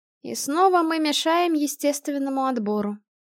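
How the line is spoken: Sighed. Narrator (Russian): вздохнула Ремильда

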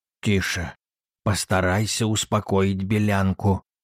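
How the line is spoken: Grandfather whispering. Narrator (Russian): сказал шепотом дедушка

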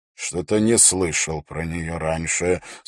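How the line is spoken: Doubtful, through teeth. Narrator (Russian): с сомнением в голосе процедил Холт

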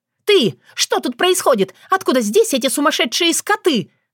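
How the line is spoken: Breathless shrieking woman. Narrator (Russian): завизжала Соня, как только у нее хватило на это дыхание

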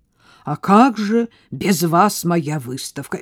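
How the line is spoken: Crushed, devastated voice. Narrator (Russian): твой муж сказал убитым голосом

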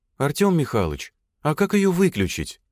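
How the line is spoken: Calm, slightly detached question. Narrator (Russian): Своим спокойным и чуть отстраненным голосом спросил Валя у Головина

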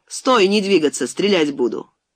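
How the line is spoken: Shouting. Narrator (Russian): крикнул

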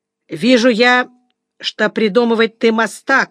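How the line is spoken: Hateful, through teeth. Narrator (Russian): сказал сквозь зубы Сапрыкин, весь звеня от ненависти

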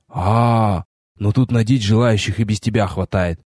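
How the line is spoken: Snorting remark. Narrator (Russian): хмыкнул напарник

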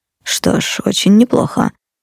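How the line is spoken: Muttered. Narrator (Russian): пробормотал Минус

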